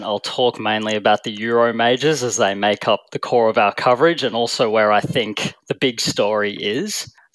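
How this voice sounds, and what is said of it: Australian accent. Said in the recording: “despite the Aussie accent”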